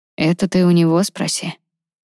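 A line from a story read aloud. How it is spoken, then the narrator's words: Tired reply. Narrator (Russian): устало ответил Игнис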